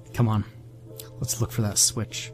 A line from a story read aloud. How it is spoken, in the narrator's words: mumbled as he pushed past me